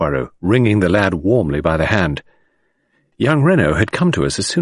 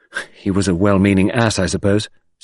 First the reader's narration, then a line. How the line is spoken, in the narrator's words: said Jack